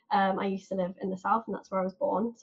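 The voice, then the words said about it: Southern English accent. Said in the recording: “as you can probably tell by my accent, I'm not from the north”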